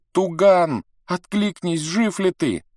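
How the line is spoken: Desperate girl shouting. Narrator (Russian): Девочка с отчаянием закричала

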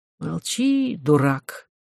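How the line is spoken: Weary voice. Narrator (Russian): сказал Роман устало

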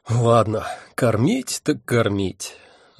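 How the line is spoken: Resigned sigh. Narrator (Russian): обреченно вздохнул я

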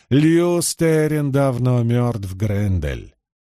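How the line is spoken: Sly, mocking interruption. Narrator (Russian): Прервал он ее лукавым, насмешливым тоном, без малейшего намека на гнев или раздражение

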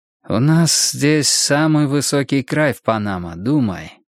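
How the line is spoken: Soft, enthusiastic. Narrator (Russian): сказал Фернандес мягким восторженным голосом

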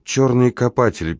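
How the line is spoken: Sad tone. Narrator (Russian): печальным тоном добавила Клара

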